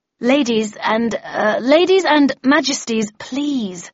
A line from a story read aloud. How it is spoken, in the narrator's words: I said in a conciliatory tone